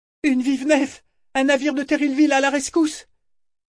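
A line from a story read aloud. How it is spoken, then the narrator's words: Screaming. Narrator (French): Malta hurlait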